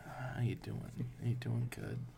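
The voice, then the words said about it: Quiet, soft library-like voice. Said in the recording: “Everyone speak up, too. Everyone's got, like, a weird, like, ... It's weird, like, library.”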